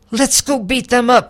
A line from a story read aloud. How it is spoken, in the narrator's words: I shouted